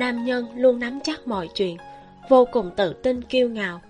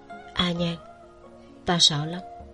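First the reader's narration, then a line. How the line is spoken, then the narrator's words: Soft whisper. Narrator (Vietnamese): Tiêu Tụng ... nhẹ giọng thì thầm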